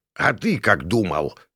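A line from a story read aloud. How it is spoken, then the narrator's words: Snorted. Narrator (Russian): фыркнул Крамер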